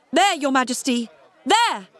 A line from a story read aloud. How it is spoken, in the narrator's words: he shouted